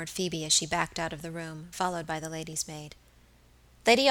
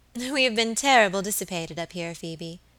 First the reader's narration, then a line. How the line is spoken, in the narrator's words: she said